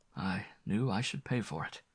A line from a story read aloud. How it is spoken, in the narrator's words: he murmured with a smile